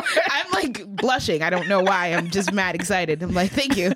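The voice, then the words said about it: New York accent. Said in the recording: “I love New York accents. ... New York accents are like my favorite, like, American accents.”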